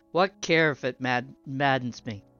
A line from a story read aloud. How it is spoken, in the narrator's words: said the farmer, with a bitter laugh